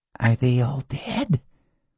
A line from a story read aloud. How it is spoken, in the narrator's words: In a whisper, so thin it was little more than a sub-vocalization, Ginger said